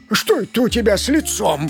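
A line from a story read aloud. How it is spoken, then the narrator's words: Frightened wolf asking. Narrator (Russian): Испуганно спросил волк Демор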